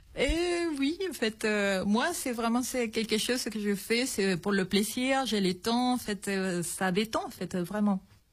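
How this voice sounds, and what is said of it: Slight Chilean accent in French. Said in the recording (French): “on entend un petit accent, vous êtes chilienne”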